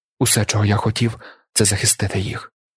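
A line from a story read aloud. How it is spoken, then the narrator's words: Weak voice. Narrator (Ukrainian): кволим голосом відказав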